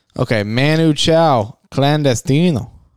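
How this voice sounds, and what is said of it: Faked foreign accent on names. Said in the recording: “you said it with an accent? ... it's not my accent. ... I faked it.”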